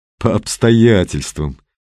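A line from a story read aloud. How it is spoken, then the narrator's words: Sad smirk. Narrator (Russian): печально усмехнулся Виктор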